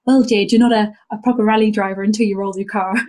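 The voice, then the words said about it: Poor imitation Irish accent. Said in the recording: “my terrible Irish accent”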